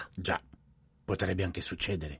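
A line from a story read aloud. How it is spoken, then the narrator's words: Plain. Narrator (Italian): disse Poirot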